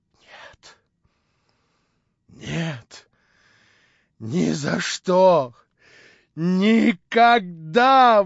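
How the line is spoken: Hoarse, choked exclamation. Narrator (Russian): восклицал он хриплым, задушаемым голосом

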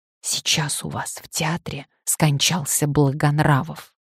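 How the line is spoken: Whisper. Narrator (Russian): один из генералов прошептал

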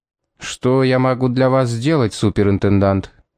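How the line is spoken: Plain. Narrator (Russian): спросил Яга

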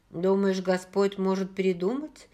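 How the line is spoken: Calmer question. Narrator (Russian): более спокойно спросила Бри

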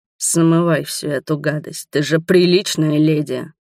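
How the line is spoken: Growled. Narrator (Russian): рычал

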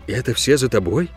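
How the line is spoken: Quiet question. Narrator (Russian): тихо спросил я у Гиры

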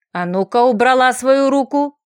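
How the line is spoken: Bestial snarling growl. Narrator (Russian): прорычал, демонстрируя звериный оскал

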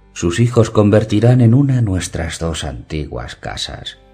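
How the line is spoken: Plain. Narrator (Spanish): dijo

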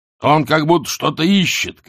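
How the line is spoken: Shout. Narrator (Russian): крикнул

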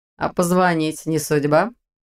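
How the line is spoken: Mocking question. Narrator (Russian): насмешливо уточнил Ваня

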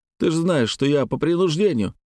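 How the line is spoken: Frightened babbling. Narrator (Russian): залепетал Гаврила

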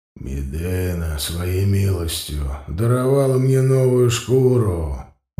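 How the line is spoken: Hoarse voice. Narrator (Russian): очень знакомый хриплый голос

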